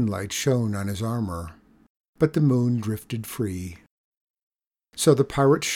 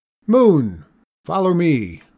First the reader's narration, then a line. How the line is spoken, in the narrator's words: waved his sword above his head, shouting